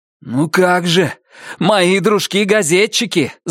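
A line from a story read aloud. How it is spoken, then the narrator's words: Shout. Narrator (Russian): закричал Джонни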